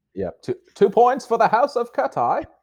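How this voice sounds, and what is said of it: Rough put-on Harry Potter accent. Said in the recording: “a Harry Potter reference? ... The accent needs some work”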